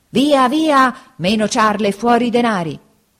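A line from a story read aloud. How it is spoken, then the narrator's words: Threatening shouts from two bandits. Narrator (Italian): gridavano minacciosamente i due briganti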